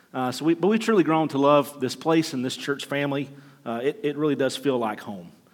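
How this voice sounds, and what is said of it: Southern Alabama accent. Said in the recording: “We're originally from Alabama, in case the accent didn't give it away. We've been gone for 20 years, but I haven't been able to shake that yet.”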